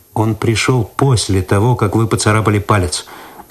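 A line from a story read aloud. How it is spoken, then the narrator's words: Calm objection. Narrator (Russian): спокойно возразил Цветков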